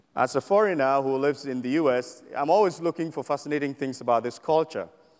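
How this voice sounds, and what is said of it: Foreign accent. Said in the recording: “You can tell from my accent that I'm not from around here. ... if you can't make it out with the accent”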